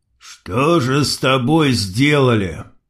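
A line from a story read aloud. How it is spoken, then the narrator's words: Muffled, forced out. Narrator (Russian): Глухо выдавил Крот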